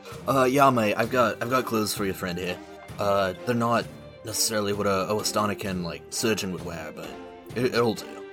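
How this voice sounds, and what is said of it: Inconsistent put-on Australian accent. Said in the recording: “my all-over-the-place Australian accents”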